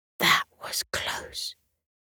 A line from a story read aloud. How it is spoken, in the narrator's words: he whispered to himself